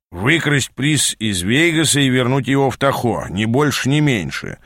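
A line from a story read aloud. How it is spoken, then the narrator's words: Weary grumble. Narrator (Russian): в сотый раз пробурчал Аас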